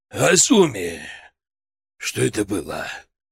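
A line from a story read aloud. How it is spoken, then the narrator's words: Heavy wheezing, breathless. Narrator (Russian): проговорил он с тяжелым хрипом, немного восстановив дыхание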